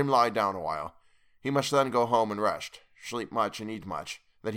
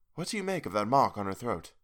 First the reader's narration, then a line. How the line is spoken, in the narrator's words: I asked the professor in a whisper